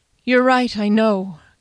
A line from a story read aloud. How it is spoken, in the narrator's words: Kian said wearily